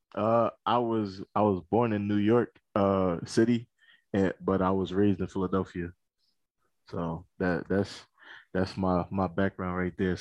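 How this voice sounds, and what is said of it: Slight East Coast American accent. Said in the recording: “people might pick up a little East Coast accent there ... you might hear a little bit of an accent ... most people say they hear an accent when I or when I start to speak”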